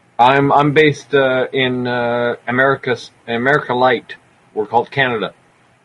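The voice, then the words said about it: Canadian accent with slight twang. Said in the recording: “I should have known from your accent. You got a bit of a twang there.”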